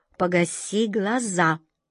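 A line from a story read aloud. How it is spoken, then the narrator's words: Sharp scolding. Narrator (Russian): прикрикнула на нее красотка Джина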